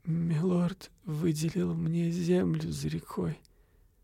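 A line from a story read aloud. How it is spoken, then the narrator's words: Moaning. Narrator (Russian): простонала она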